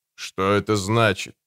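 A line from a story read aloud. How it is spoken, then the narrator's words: Menacing question. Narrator (Russian): грозно осведомился доктор Вамбрейс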